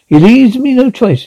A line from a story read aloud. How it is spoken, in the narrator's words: she laughs